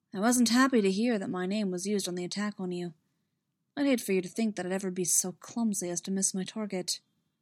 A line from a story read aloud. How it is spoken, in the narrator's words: Obi-Wan's voice was coolly impersonal as he added